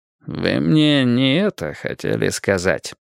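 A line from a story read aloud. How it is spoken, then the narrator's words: Sleepy. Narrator (Russian): как-то сонно проговорил Мейсон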